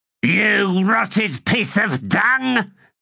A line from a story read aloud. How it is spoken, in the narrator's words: he snarled